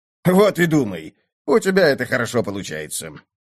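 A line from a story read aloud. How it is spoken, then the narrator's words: Snort. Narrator (Russian): фыркнул Зигмунд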